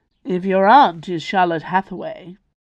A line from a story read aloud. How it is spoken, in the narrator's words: said in a voice that was more drawl than raw